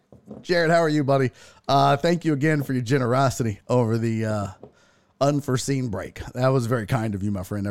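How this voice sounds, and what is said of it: Breathless, running out of breath. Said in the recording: “I'm running out of breath. ... I am running out of breath.”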